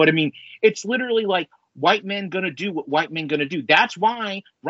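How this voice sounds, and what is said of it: Usual voice. Nothing is said of it.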